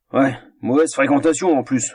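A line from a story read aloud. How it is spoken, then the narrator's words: Grumbled grumpily. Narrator (French): grommela l'être bougon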